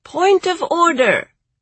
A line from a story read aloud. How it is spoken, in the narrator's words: Various other birds piped up, saying